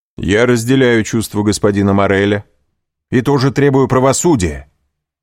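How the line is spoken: Loud. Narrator (Russian): сказал громко

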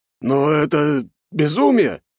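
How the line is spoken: Emotional exclamation. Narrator (Russian): воскликнул, не в силах более сдерживать свои эмоции

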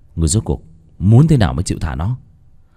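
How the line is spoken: Harsh, clipped voice. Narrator (Vietnamese): gằn giọng

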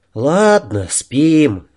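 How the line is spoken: Sighing. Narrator (Russian): вздохнул Жора

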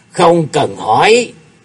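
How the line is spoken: Low, quiet snap. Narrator (Vietnamese): Cung Lư Dương Tử trầm giọng quát khẽ

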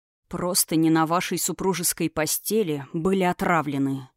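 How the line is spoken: Dull, hollow tone. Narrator (Russian): произнес он глухим тоном

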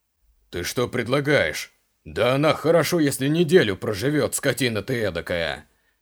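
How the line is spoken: Roaring guard. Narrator (Russian): взревел стражник

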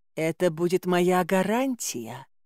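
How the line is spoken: Purring in the ear. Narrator (Russian): промурлыкала царица мне на ухо

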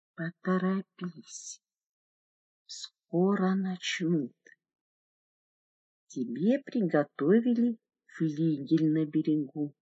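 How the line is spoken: Hot breathy whisper in ear. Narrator (Russian): жарко дыша, зашептал в ухо

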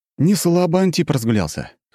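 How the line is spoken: Amused snort. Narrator (Russian): хмыкнул я

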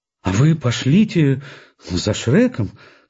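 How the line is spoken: Plain. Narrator (Russian): сказала Ольга Ивановна

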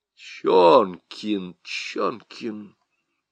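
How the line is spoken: Muttering man. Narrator (Russian): бормотал прокурор

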